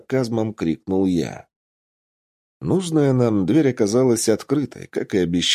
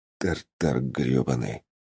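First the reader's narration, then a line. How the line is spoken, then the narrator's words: Whispered. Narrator (Russian): прошептал я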